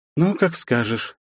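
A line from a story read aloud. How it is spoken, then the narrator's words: Upset sigh. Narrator (Russian): Явно расстроенно вздохнула девушка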